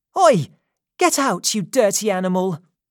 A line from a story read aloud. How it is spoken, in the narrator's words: suddenly she shouted